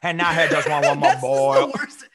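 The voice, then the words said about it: Put-on Cajun bayou accent. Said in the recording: “you really gotta work on your bayou accent, boy.”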